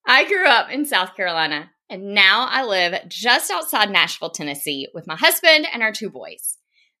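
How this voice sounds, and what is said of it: Strong Southern American accent. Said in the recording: “you might detect just a tiny bit of a Southern accent. That's probably a huge understatement.”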